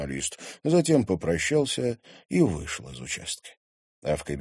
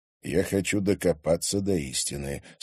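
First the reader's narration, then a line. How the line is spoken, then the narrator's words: Calm reply. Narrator (Russian): спокойно ответил ему Владимир Мезенцев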